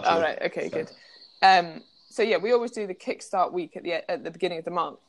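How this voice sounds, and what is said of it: Voice going, strained. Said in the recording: “my voice is going as well”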